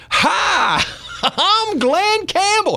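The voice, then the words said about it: Imitates another person's voice. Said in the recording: “your impression is dead on”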